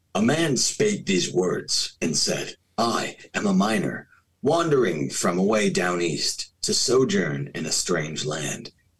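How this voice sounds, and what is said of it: Grand storytelling narration voice. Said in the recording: “in my great narration voice”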